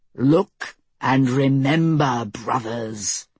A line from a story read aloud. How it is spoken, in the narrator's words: Anders thundered